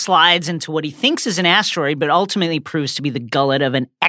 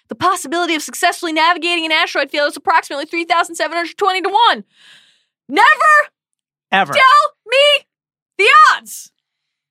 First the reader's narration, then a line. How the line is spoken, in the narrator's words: shouts